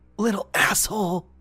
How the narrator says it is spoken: she muttered

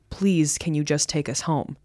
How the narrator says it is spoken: She quietly said

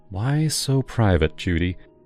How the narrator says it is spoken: I muttered to myself

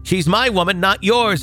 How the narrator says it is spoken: he screamed

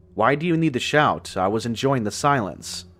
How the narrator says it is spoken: answered in an annoyed tone

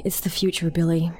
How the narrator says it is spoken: he sighed, as if what he was saying truly pained him

